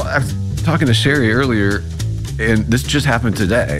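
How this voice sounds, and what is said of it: Congested nasal voice. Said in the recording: “It is allergy season. I hope you can't hear it in my nose voice. ... Well, be honest, it's there a little.”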